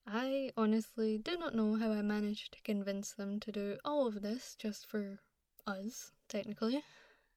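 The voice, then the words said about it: Scottish accent. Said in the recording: “Call it the Scottish accent buff.”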